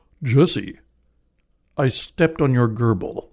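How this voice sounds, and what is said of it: Imitates another person's voice. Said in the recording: “Let me go into my best Thurl Ravenscroft and see if I can reenact this dramatically ... You sound just like my father, Thurl Ravenscroft.”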